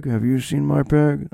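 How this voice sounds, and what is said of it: Imitates another person's voice. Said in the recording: “my Nick Cage impression. It's getting, it's getting a little better.”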